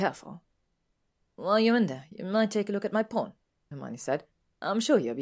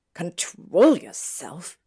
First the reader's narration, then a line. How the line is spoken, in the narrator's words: He snapped